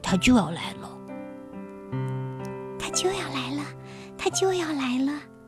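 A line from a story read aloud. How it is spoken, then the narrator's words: Quiet, low. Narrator (Chinese): 一只豪猪 小声说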